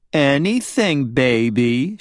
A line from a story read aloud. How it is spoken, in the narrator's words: she cooed